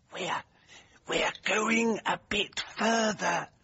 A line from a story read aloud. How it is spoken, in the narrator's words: murmured Jennings